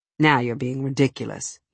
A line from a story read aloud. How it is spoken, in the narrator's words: he said, and his tone was lacerating